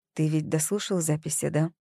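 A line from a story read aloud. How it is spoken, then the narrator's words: Quiet question. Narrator (Russian): тихо спросила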